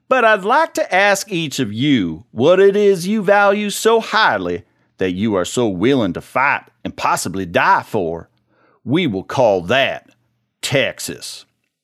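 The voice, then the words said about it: Put-on Texan accent. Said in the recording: “in my impeccable Texan accent”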